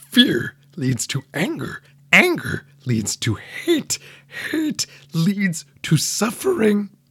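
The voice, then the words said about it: Poor impression of Yoda's voice. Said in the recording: “my favorite Green Muppet, Yoda, and I'm going to quote him, complete with my terrible impression”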